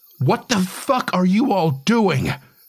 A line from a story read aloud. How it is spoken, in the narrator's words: shout so loud